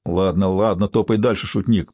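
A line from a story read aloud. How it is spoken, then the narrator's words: Thug's grumble. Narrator (Russian): проворчал один из громил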